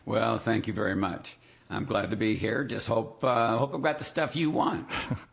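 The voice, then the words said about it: Hoarse, laryngitis-affected voice. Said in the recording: “you've got a little laryngitis ... whoa, do I ever!”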